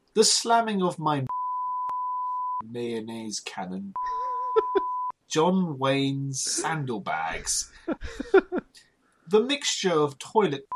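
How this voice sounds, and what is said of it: Put-on posh accent. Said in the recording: “I'll do this one in a posh accent.”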